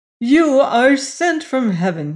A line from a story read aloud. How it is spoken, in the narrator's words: he cried at sight of her